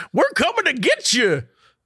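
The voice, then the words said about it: Exaggerated Southern American accent. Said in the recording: “I'd hear the leader say in real southern accent,”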